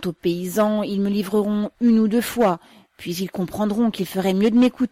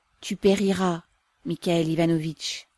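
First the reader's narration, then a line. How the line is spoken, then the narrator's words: Sad declaration, mother. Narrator (French): déclara tristement la mère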